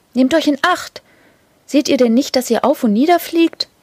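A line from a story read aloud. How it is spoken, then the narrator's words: Called out while rushing past. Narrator (German): rief eine Lumme, indem sie vorüberbrauste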